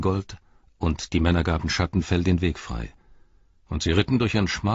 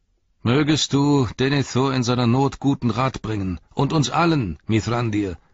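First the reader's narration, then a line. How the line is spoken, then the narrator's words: Calling out. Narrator (German): rief Ingold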